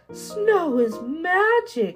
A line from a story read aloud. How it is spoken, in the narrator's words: cried Little Mouse